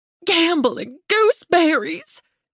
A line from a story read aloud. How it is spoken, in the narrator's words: she gasped